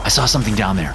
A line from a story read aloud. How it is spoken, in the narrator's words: I sputtered